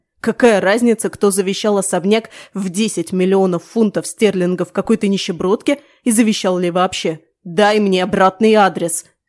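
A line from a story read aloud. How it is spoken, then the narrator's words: Barking boss. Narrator (Russian): рявкнул босс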